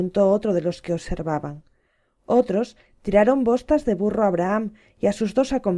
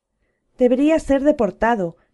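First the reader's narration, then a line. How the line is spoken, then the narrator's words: Man shouting from crowd. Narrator (Spanish): gritó un hombre de la multitud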